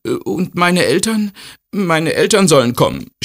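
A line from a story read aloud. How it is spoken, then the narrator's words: Stammering. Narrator (German): stammelt er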